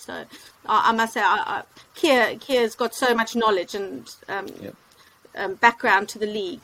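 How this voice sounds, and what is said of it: South African accent. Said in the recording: “we can probably hear a South African twang there”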